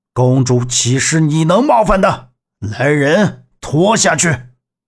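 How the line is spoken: Calm. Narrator (Chinese): 苦乐药平静地说

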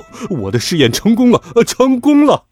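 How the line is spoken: Sudden laughter. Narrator (Chinese): 爸爸忽然间大笑起来

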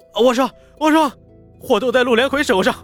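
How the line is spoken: Screaming in pain. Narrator (Chinese): 那人疼得满地打滚，连忙大喊

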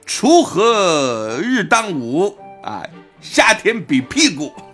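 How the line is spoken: Girl's shout. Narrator (Chinese): 有个姑娘就喊了句

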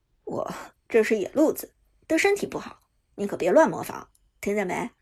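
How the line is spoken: Smiling reminder. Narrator (Chinese): 微笑提醒道

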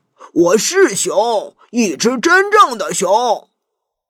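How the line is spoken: Angry roar. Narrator (Chinese): 大熊怒吼着

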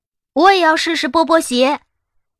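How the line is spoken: Silly shouting. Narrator (Chinese): 傻乎乎的喊着

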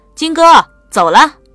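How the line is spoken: Calling out. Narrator (Chinese): 第二名女生旁边那个人冲这边喊道

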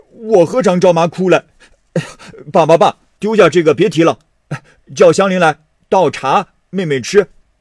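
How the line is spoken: Laughing after tears. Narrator (Chinese): 薛蟠忙收了泪，笑道

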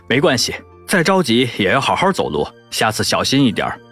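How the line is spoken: Calm, faint smile. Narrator (Chinese): 男人淡淡的笑了一下，说

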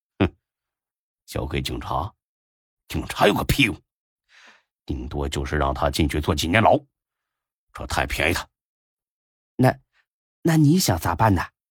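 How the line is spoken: Cold snort. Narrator (Chinese): 大飞冷冷一哼

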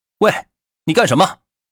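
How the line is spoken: Frightened shout. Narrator (Chinese): 吓得值班护士喊道

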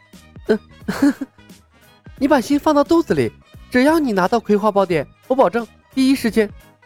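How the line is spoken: Laughing. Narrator (Chinese): 木星笑道

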